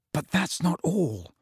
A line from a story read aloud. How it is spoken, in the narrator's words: said Harry in a voice only a little above a whisper